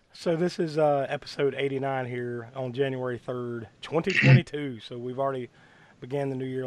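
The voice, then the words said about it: Rough, sick-sounding voice. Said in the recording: “I'm battling bronchitis right now as we speak, so on my end, it's going to be a little rough ... without completely losing my voice.”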